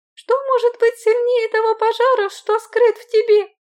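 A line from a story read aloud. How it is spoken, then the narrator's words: Cheerful smirk. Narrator (Russian): Усмехнулась я весело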